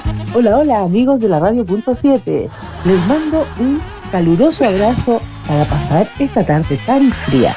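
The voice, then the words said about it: Radio announcer voice. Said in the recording (Spanish): “una voz de auditor con un locutor, por favor ... voz de locutor”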